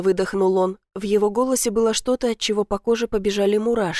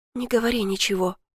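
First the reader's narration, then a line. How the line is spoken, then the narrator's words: Whisper. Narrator (Russian): прошептала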